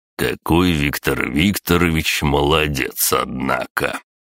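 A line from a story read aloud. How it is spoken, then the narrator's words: Venomous drawl. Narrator (Russian): ядовито протянул Дмитрий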